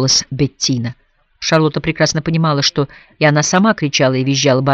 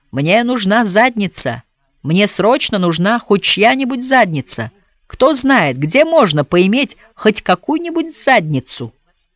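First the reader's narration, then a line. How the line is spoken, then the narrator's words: Yelling at top of lungs. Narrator (Russian): орал во всю глотку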